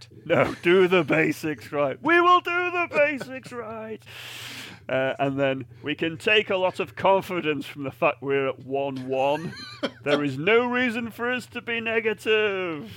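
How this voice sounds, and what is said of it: Andrew Strauss impression. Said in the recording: “my best Andrew Strauss impression ... Very good”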